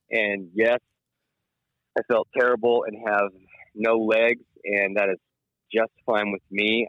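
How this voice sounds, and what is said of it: Sick, slightly off-sounding voice. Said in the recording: “You can tell my voice just sounds a little wrong ... I'll start coughing and I won't be able to stop”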